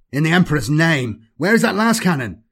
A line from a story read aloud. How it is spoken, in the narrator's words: Hoddish was shouting